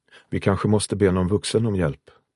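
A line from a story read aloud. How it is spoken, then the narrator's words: Plain. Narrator (Swedish): sa Marvin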